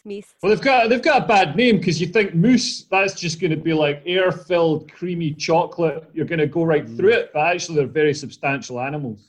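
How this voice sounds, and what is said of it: Speaks with a distinctive accent. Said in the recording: “Did you say moose again? That's fabulous in your accent”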